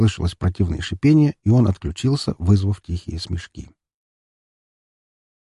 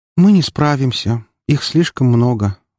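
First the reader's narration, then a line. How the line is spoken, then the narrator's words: Sigh. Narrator (Russian): вздохнула Валькирия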